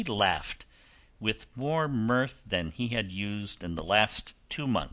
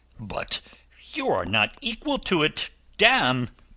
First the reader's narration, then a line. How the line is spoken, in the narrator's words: cried his lordship